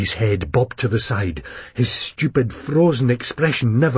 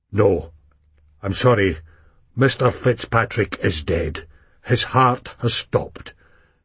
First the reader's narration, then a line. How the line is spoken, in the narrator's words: Sim said gravely